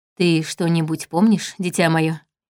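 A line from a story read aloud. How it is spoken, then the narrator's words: Unexpectedly gentle question. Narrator (Russian): Неожиданно мягко спросил он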